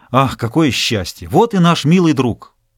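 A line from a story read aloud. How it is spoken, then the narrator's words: Joyful exclamation. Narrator (Russian): патрон радостно воскликнул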